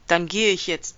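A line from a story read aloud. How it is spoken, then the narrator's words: Loud. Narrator (German): sagte laut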